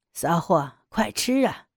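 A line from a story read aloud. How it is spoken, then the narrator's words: Lewd, domineering laugh. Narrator (Chinese): 黑人居高临下的淫笑着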